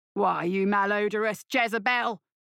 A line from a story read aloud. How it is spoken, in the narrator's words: roared Butch